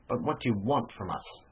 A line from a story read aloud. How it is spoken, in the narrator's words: He exclaimed in a deadened voice